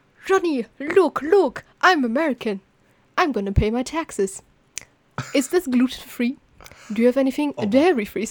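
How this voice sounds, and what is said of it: Exaggerated fake Asian accent. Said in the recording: “he does a fake Asian accent ... So I'm going to now imitate his fake Asian accent”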